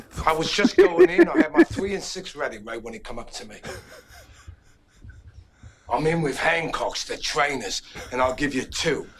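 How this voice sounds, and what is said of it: Put-on English accent. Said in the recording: “he apparently does an English accent in it”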